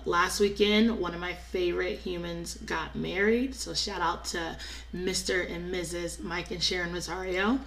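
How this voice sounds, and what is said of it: Strained, sick-sounding voice. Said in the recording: “If y'all cannot tell, I'm going to let y'all know that my voice is on the sick and the shut-in list and needs prayer ... in the midst of all of the talking, singing, cheering, dancing”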